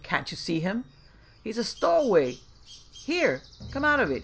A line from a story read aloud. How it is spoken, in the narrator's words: Jim exclaimed